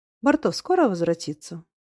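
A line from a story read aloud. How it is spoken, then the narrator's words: Calm, thoughtful question. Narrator (Russian): опять спокойно, задумчиво спросила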